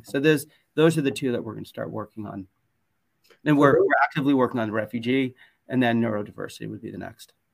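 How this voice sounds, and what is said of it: US West Coast accent. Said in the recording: “who hear your accent, I might anticipate this is a very West Coast of the US conversation”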